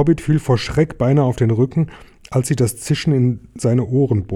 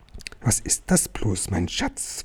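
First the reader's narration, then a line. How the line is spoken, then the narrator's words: Whispering to himself. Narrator (German): wisperte Gollum, der immer nur zu sich selbst sprach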